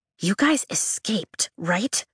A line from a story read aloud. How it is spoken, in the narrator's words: Caroline Ashton asks, lowering her voice